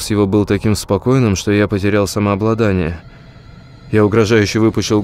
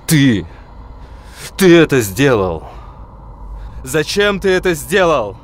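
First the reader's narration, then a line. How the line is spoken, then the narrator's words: Hysterical screaming, voice breaking. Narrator (Russian): Я кричал страшным, срывающимся в истерику голосом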